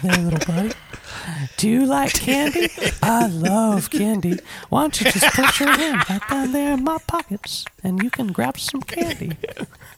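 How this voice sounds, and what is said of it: Creepy old man cartoon character voice. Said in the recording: “That sounds like the guy from Family Guy that likes Chris ... You do the voice work, don't you? You're nailing it ... Herbert the pervert is the grossest character ever ... And you nailed it ... It's like you're him.”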